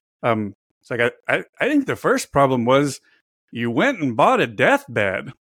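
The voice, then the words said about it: Imitates another person's voice. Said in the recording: “bad Norm MacDonald impersonations ... that was actually a pretty good Norm impression.”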